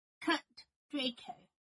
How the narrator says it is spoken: Harry said firmly

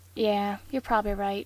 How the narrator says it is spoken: Dean sighed

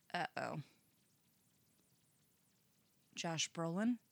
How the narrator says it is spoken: he asks

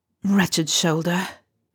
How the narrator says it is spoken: Remus muttered to himself

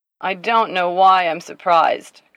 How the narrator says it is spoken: Carlos slurred

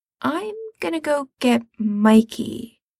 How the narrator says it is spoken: he says slowly

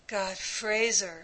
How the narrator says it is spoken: panted Ray

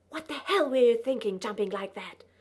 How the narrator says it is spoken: He said in a loud, angry whisper

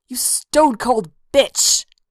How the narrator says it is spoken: Athis snarled

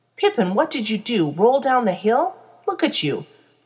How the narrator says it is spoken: Frodo exclaims

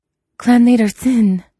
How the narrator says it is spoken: Jiang Yanli gasped

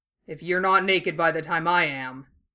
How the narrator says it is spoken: Bull growls in his ear

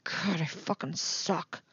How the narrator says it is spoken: Eddie mutters

